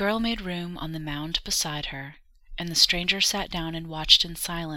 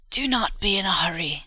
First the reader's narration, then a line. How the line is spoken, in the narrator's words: croaked the old woman